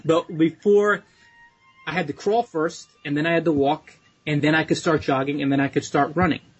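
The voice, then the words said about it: Slight New York/New Jersey accent. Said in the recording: “you can hear my New York, New Jersey accent a little bit. When I talk about crawl, walk, I notice it now.”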